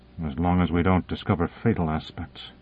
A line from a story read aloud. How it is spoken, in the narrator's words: muttered Morrison